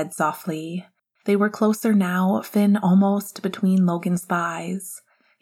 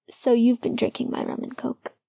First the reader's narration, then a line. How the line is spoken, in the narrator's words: Logan said hoarsely